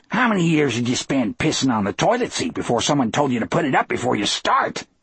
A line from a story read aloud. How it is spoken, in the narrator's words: he snarled